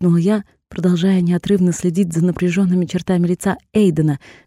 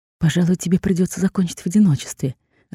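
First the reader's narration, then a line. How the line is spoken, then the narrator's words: Disappointed whisper. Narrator (Russian): разочарованно шепнула я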